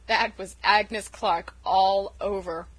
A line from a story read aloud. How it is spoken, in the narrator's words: chuckled Uncle Roger